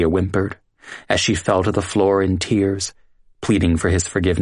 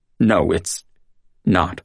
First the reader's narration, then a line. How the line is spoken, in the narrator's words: Ross stammered as he tried to calculate what he was going to do